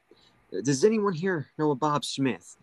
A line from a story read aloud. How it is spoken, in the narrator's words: the bartender called out